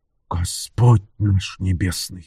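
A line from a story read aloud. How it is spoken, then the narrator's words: Breathless exhale. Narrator (Russian): выдохнул он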